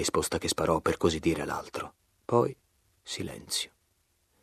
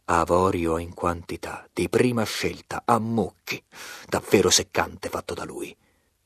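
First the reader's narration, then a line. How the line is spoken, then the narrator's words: Growled, nephew. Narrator (Italian): ringhiò il nipote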